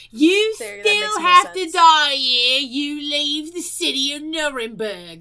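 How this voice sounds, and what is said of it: Put-on Cockney accent. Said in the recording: “We're going to say it with a Cockney accent”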